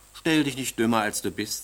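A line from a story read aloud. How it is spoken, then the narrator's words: Plain. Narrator (German): sagte die Königin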